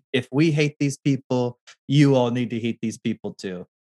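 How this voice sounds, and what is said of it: Donald Trump impression. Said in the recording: “Is that your Trump impression? ... A little bit.”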